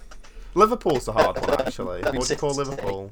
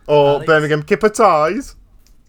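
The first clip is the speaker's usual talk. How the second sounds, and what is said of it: Bad put-on Birmingham accent. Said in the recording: “bad impression incoming”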